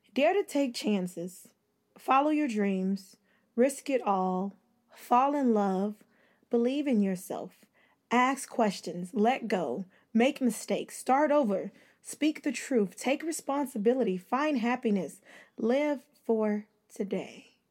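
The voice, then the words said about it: Put-on sexy voice. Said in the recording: “I'm trying to put my sexy voice on”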